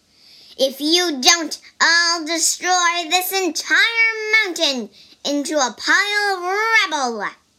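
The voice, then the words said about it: Shouting angry character voice. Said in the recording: “shouted the monkey ... Why are you yelling?”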